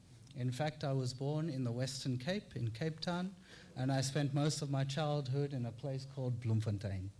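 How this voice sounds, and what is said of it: Not a typical Australian accent. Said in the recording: “You might tell from my accent that I don't have the traditional Australian accent.”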